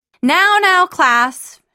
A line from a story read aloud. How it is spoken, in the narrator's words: she exclaimed with a mixture of tense jollity and clear panic